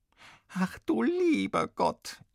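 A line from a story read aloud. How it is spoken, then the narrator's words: Wailing mother. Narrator (German): jammert die Mutter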